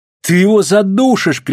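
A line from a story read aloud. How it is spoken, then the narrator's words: Shouting. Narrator (Russian): кричала она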